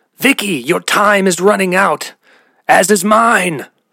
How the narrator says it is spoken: the old man shout again from the crowd

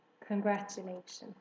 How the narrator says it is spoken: murmured Templeton

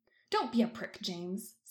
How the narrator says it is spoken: Sirius snaps in response

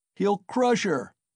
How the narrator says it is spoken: was shouted round him

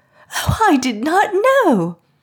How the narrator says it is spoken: the Memsahib cried

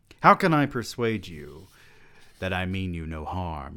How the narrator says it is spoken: he asked

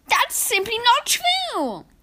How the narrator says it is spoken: I cried

